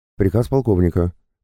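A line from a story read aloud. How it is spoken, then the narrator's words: Squeaky voice. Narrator (Russian): пропищала она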